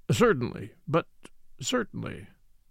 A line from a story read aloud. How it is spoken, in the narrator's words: Papopoulos had already murmured